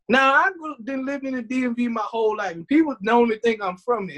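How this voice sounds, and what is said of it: Southern-sounding Prince George's County accent. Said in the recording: “Somebody told me I had a PG County accent. ... I always was told I sound real southern.”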